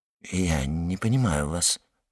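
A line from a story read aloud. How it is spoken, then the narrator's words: Mumbling. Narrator (Russian): пробормотал Люсьен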